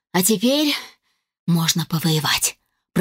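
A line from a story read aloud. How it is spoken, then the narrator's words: Whisper after deep breath. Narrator (Russian): прошептала я, глубоко вздохнув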